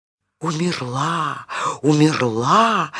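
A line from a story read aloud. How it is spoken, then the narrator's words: Frightened whispering, droplets. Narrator (Russian): испуганно шептали другие капельки в речке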